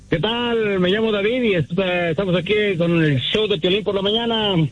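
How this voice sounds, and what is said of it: Radio announcer-style voice. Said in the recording (Spanish): “tiene voz de locutor”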